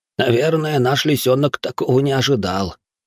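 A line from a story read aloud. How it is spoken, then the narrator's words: Quiet whispering, two people. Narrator (Russian): тихонько шептались между собой Ясуо и Микио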